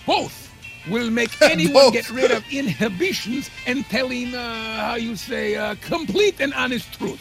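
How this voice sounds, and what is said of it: Poorly done put-on foreign accent. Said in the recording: “Your accent sucks.”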